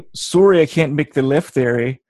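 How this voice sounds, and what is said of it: Put-on Canadian accent. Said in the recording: “I can't do a Jersey accent. That's kind of sad. I always went to the Canadian.”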